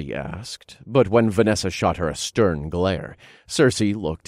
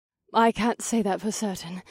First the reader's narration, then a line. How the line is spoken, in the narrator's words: panted